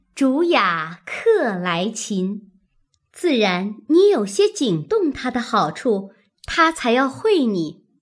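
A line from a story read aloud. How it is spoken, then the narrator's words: Laughing. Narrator (Chinese): 湘云笑道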